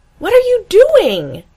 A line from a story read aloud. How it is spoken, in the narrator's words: She shouts